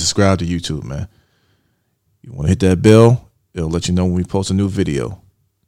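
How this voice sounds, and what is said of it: Smooth radio announcer voice. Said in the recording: “It's a little radio voice. ... It's always so smooth.”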